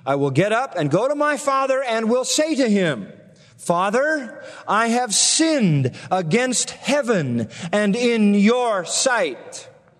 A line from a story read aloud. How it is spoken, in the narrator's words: He says